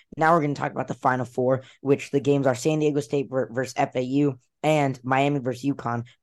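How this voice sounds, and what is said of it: Slightly raspy voice. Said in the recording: “if my voice sounds a little bit raspy.”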